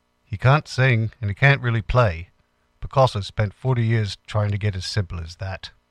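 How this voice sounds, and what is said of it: Badly imitated accent of another person. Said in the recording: “It's a terrible accent”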